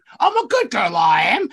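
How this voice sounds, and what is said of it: Deliberately awful character voice. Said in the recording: “do a really awful voice ... from My Fair Lady ... just like the most awful sounding thing”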